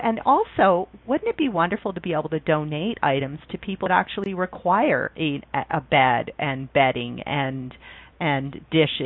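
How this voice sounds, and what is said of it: Speaks with a distinctive accent. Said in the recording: “I absolutely love your accent and the way you say the word bin or bean”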